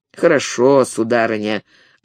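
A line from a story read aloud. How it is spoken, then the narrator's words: Half-disappointed, half-threatening. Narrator (Russian): отвечал Галлони полуразочарованным, полугрозящим тоном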